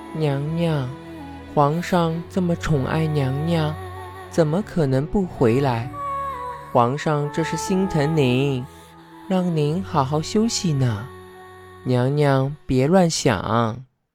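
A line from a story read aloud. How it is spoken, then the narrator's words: Soft coaxing. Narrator (Chinese): 小肚子低声劝道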